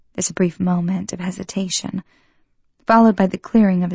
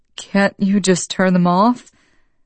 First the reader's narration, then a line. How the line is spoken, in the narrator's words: Now it sounds like he's trying to stifle a laugh